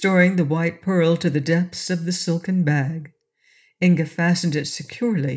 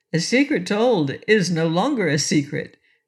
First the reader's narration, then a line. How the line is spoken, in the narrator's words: replied Inga with a laugh